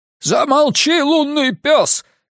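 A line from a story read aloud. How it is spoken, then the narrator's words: Shouted. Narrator (Russian): крикнул Удулай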